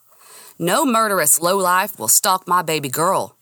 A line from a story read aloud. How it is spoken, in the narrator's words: he bellowed